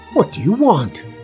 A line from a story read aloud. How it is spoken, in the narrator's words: the evil wizard Smallbone snaps